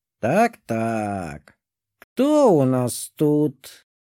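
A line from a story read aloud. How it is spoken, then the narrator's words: Caustic demon voice. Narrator (Russian): проговорил едким голосом демон по имени Грегора Бафомет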